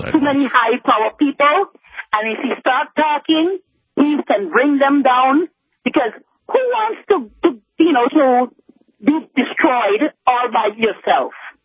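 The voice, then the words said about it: U.S. Virgin Islands accent. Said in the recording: “out there in the U.S. Virgin Islands ... I love the accent.”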